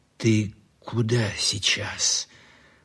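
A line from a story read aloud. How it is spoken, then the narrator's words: Asked in an undertone. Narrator (Russian): вполголоса спросил у репортера Лихонин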